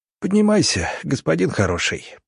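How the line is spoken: Hoarse wheeze. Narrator (Russian): просипел коллега

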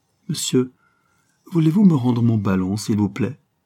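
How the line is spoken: Astonished, frightened exclamation. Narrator (French): au comble de la stupéfaction, en proie à une sorte de frayeur mystérieuse, le fils de Jacqueline s'écrie

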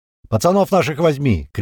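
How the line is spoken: Shouted after someone. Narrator (Russian): крикнул ему вслед Апрель

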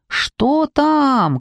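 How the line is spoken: Shout. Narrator (Russian): крикнула я

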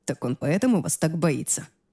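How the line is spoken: Soft laughter. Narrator (Russian): тихо засмеялся Аарон

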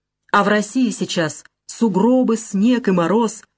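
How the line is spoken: Plain. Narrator (Russian): говорит фрау Кеслер

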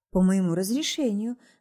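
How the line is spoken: Sighed. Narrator (Russian): вздохнула та

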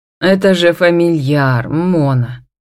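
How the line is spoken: Tired curt remark. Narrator (Russian): устало бросает муж

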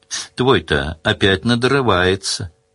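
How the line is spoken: Lazy. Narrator (Russian): лениво сказал Сварог

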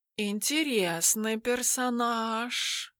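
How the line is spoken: Purring. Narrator (Russian): промурлыкал Тимофей

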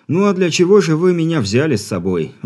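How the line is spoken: Sigh of feigned despair. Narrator (Russian): Вздохнув с показным отчаянием, ответил инженер

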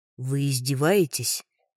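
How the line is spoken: Man's growl. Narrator (Russian): рыкнул мужчина

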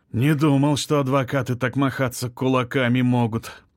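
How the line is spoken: Sigh, young man. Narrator (Russian): вздохнул парень

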